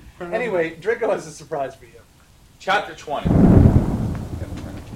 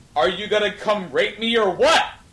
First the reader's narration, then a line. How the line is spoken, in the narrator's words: I yelled